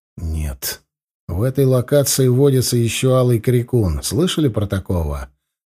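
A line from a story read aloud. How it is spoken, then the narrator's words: Soft reply. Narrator (Russian): мягко ответил я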